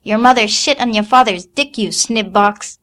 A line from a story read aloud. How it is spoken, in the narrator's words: shouted